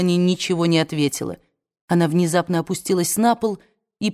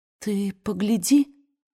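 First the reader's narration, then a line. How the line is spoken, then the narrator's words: Trembling voice. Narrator (Russian): проговорила дрогнувшим голосом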